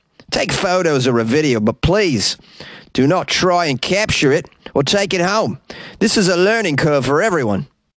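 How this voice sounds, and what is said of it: Put-on Australian accent. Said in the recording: “what a pretty good Australian accent that was in this one. I mean, it's up or down with those accents”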